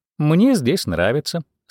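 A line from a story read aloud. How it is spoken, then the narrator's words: Calm reply. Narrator (Russian): спокойно ответила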